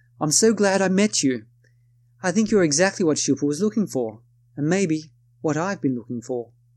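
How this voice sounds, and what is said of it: Put-on accent quoting a woman. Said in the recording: “excuse my attempt at an accent”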